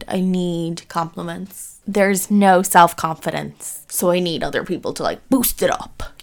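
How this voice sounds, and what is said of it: Speaks with slight American accent. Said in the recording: “this weird American accent coming through ... There is a weird American accent coming through.”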